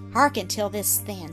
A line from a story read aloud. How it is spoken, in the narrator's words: said Donald